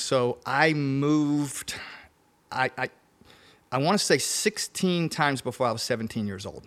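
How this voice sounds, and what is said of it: Louisiana-influenced Southern accent. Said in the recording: “one in Louisiana, hence the accent.”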